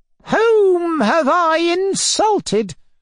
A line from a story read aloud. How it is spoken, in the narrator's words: wailed Fomar